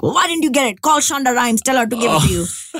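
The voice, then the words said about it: Put-on accent imitating parents. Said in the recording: “They don't have an accent at all. I just use the accent when I'm talking about them.”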